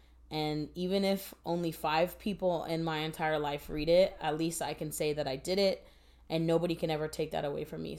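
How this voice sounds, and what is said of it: Emotional, choked-up voice. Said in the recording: “Sorry, I'm getting emotional now.”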